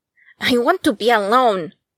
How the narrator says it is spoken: Akira snapped, finally raising his voice above a murmur

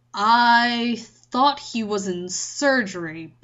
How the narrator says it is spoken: Bond said slowly

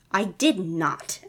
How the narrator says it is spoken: Eddie spat back

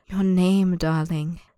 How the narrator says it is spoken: the man purrs, so soft it feels as if he hasn't spoken the words at all

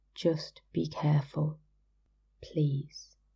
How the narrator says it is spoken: Against his cheek, he breathed

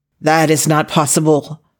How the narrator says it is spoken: Chu Shuja almost shouted

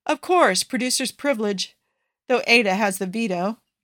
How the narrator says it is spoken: Joe sighs

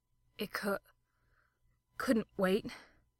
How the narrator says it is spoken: Crowley panted

